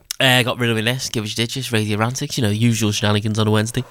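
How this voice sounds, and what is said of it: Very fast speech. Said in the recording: “Said that fast then, didn't I? ... It said it fast.”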